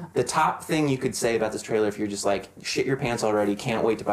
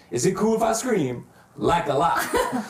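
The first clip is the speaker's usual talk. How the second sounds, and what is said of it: Impression of a Black man's voice. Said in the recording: “That was an impression of a black man. Was it good? ... It was. I got confused and wasn't sure if I was talking or if it was you.”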